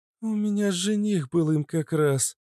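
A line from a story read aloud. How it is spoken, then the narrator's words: Sad girl reminiscing. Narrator (Russian): грустно вспомнила девушка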